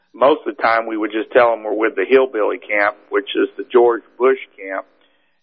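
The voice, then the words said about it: Texas accent. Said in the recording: “we have Texas accents, kind of like George Bush ... my accent is real, not fake”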